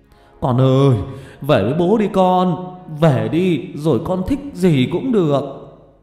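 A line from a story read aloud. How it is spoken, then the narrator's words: Man shouting repeatedly. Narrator (Vietnamese): ông ấy cứ hét lên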